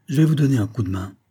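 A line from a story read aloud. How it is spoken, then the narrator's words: Paternal tone. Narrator (French): finit-il par dire d'un ton paternel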